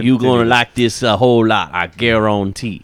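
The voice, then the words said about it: Exaggerated Cajun accent impression. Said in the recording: “Justin Wilson, the cooking Cajun ... The best Cajun accent in the room.”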